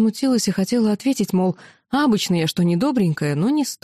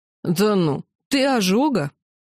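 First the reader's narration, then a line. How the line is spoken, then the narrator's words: Snorting. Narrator (Russian): хмыкнула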